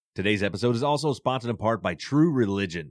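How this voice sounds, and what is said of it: Polished radio announcer voice. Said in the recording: “Did you guys hear that radio voice?”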